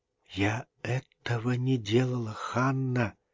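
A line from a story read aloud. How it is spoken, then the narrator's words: Whispered. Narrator (Russian): шептала она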